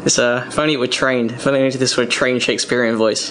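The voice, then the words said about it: British accent. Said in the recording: “a little British accent”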